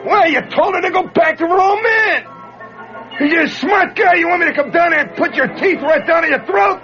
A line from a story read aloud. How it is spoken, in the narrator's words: somebody hollers